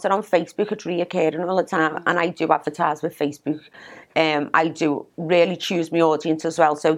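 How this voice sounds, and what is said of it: Liverpool accent. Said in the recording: “your accent. From Scotland. No, Scotland. Liverpool.”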